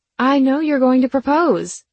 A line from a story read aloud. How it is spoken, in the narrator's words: I blurted out